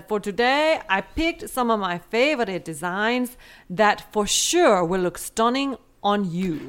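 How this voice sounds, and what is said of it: Put-on foreign accent. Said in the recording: “That's actually one of your better accents. ... I think that was good. ... I was trying to channel Killing Eve.”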